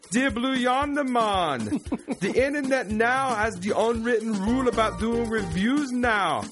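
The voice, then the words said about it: Put-on Jamaican accent. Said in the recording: “Does he want me to do some crazy accent? A Jamaican accent? ... I'm going to have to do another damn accent. ... That's a Jamaican accent right there, right?”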